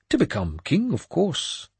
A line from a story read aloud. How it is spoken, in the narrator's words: he went on in a conversational tone